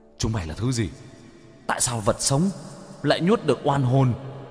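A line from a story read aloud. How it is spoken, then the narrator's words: Frightened ghosts screaming. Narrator (Vietnamese): Đám oan hồn hét lên sợ hãi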